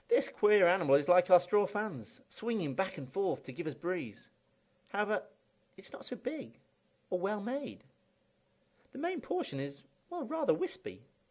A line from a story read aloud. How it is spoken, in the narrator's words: Without waiting for anyone to be properly seated, the second one blurted out